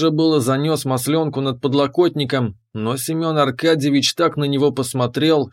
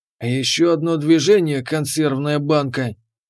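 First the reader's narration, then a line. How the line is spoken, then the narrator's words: Quiet menacing growl. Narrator (Russian): прорычал так тихо, что стало страшно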